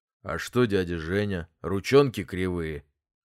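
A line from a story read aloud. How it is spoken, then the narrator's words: Father's gloomy bass. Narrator (Russian): отец хмуро пробасил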